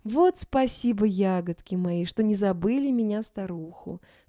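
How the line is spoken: Plain. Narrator (Russian): сказала она

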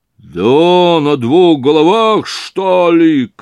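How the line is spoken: Shouting. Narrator (Russian): крикнул Разумихин

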